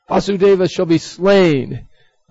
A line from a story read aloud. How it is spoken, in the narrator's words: He shouted